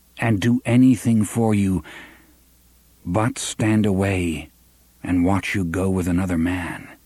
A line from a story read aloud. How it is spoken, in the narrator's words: he said calmly